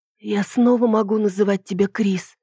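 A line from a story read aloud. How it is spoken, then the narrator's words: Hoarse after shouting. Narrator (Russian): спросила я хриплым после крика голосом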